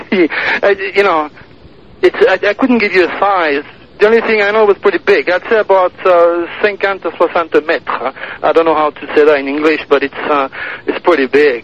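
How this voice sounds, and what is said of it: French accent in English. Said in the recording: “your French accent”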